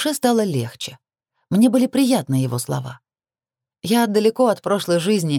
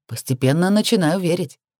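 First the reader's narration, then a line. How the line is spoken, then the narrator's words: Surprised snort. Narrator (Russian): хмыкнул несколько изумленно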